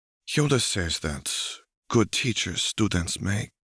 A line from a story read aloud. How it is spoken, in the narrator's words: Shakti murmurs